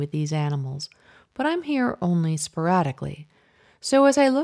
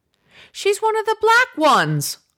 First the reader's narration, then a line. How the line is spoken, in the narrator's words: Mom exclaims